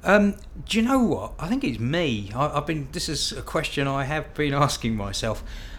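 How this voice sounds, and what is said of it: Southern English, cockney-like accent. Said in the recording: “I just sound like a right cockney, but, which I'm not. I've got a Crawley accent... To the people up north, it sounds like a cockney, but to a cockney, it sounds like some southerner”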